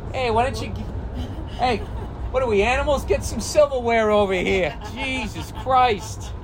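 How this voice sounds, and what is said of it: Exaggerated New England accent. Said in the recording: “my New England accent made the word silverware morph into civilware”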